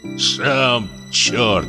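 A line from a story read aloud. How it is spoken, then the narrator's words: Grumbled. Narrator (Russian): проворчал Поликарп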